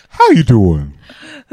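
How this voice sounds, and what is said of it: Imitates another person's voice. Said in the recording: “That was a good impression... That's spot on.”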